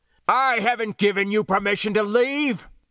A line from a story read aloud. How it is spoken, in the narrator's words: he bellowed